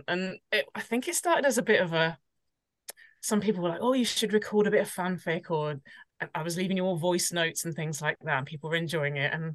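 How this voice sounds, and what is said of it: British accent. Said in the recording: “everybody loves a British accent, don't they? ... lots of other people around the world seem to love my accent.”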